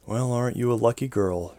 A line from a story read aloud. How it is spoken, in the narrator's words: she whispered